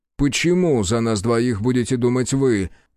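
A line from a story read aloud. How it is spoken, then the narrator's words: Yelling after recovering. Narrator (Russian): завопил пришедший в себя Манин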